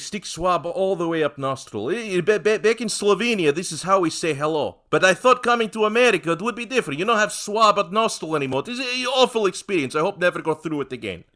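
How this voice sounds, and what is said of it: Put-on Eastern European accent. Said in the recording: “Your Slovenian and Russian sound eerily similar ... You just do an Eastern European accent ... more of an Eastern European European impersonator ... it's a very versatile accent”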